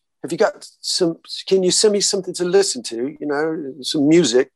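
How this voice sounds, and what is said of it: Imitated proper British accent. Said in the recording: “In that proper British accent”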